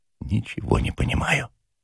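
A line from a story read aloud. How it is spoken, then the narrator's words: Quiet. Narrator (Russian): тихо сказал Ежевикин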